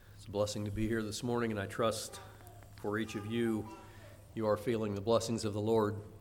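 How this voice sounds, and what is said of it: Voice sounds unwell, strained. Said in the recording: “Sorry about my voice this morning. I hope it's more of a distraction to me than it is to you.”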